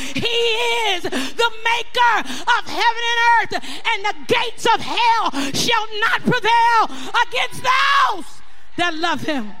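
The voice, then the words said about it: Excited yelling. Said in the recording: “I get so excited about it. I know I'm yelling at you. I just get so excited.”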